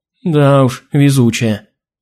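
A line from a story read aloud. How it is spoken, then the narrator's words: Glum. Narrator (Russian): уныло закивала Алина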